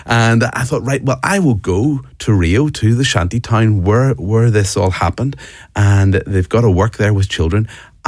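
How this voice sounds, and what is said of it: Irish accent. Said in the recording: “you might get from my accent, I'm from Ireland”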